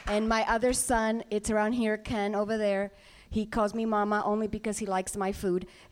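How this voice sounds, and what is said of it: Puerto Rican Spanish-accented English. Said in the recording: “as you can tell by my accent, English is my second language because I was born in the beautiful island of Puerto Rico”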